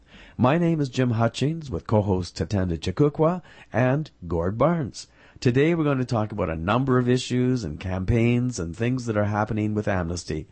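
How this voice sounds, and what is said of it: Deeper voice, slightly congested. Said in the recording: “radio voice ... A little deeper with my cold”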